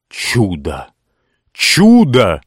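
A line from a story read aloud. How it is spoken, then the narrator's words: Exclamation. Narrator (Russian): воскликнул Ричард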